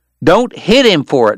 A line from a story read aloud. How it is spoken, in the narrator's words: Wyatt yelled